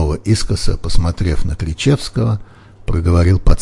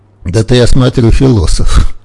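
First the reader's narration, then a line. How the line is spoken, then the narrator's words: Laughing. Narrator (Russian): рассмеялся доктор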